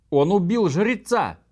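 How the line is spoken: Women screaming in confusion. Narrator (Russian): завопили женщины в замешательстве

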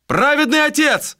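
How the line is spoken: Guards shouting from towers. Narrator (Russian): закричали караульные на сторожевых вышках

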